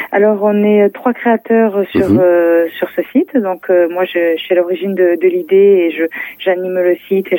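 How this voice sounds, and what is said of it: Toulouse regional French accent. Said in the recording (French): “votre petit accent que vous êtes de la région toulousaine”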